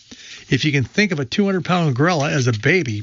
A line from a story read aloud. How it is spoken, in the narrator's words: Blowhard said